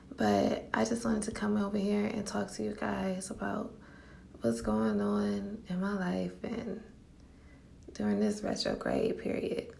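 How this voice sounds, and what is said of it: Sleepy, just-woken-up voice. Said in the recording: “hear the sleep in my voice.”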